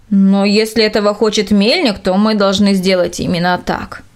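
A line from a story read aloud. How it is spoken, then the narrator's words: Plain. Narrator (Russian): ответил он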